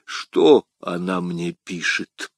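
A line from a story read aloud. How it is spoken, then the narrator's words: Weak voice, bleeding. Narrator (Russian): слабым голосом спросил Бекингем, истекая кровью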